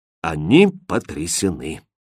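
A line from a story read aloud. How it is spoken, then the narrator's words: Gloomy. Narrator (Russian): мрачно сообщила королева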